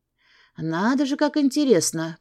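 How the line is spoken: Muttered. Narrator (Russian): пробормотала я

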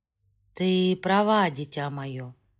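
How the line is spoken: Tired, smiling. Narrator (Russian): Устало улыбнулся

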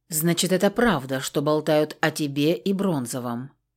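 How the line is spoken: Quiet, expressionless question. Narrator (Russian): тихо спросила она без всякого выражения

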